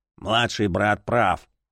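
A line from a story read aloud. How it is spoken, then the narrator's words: Gruff mutter. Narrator (Russian): буркнул кто-то из чемпионов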